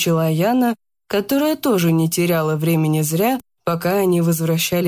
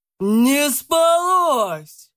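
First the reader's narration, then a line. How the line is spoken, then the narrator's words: Booming voice. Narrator (Russian): прогремел Кулешов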